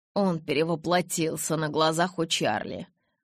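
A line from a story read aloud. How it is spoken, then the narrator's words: Through gritted teeth. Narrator (Russian): процедил Эдвард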